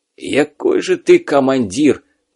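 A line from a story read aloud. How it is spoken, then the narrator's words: Wheezing. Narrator (Russian): просипел он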